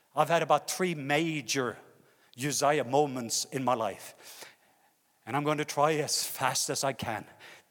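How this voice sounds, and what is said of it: Norwegian accent. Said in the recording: “I even come with a Norwegian accent. So it's going to be harder for you to listen.”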